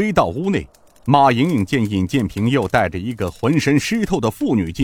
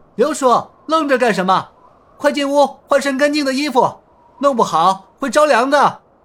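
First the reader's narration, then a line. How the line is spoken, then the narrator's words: Calling out. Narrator (Chinese): 尹建平从屋内伸出头来喊道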